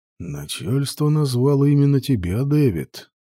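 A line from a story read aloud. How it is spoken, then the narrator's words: Low soft objecting voice. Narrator (Russian): возразил отец Зорза низким мягким голосом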